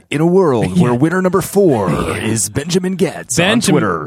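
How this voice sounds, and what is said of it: Dramatic movie-trailer announcer voice. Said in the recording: “Please use your announcer voice.”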